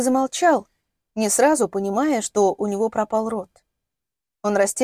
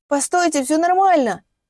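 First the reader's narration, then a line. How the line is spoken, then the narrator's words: Shout. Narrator (Russian): Он сумел крикнуть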